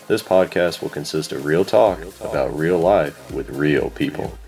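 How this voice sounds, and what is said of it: Radio announcer voice. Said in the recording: “that awesome radio voice you hear in the introduction”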